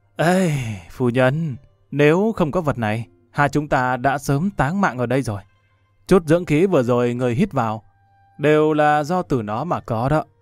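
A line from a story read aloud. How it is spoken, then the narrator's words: Moved, sighing. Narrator (Vietnamese): Đàm Vân Vinh cảm khái thở dài một tiếng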